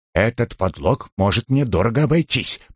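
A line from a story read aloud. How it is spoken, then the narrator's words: Half-joking mutter. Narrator (Russian): пробормотал Джонс полушутя, полусерьезно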